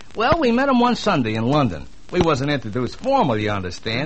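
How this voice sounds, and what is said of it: Brooklyn accent. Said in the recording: “I don't quite place your accent. ... That's Brooklyn.”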